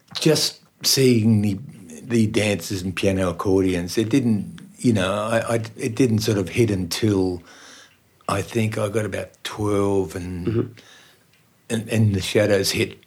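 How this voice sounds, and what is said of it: Newtown accent, not Austrian. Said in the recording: “you notice I don't have an Austrian accent. ... It's more a Newtown accent.”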